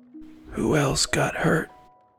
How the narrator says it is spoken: He asked weakly

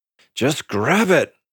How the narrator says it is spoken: I growled in my throat

